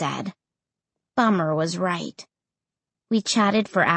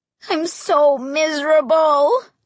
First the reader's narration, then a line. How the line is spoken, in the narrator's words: I wailed